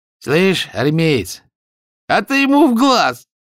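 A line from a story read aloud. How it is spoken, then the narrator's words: Sudden loud advice. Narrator (Russian): неожиданно громко посоветовал плечевой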